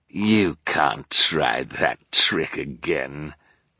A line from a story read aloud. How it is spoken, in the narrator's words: he sneered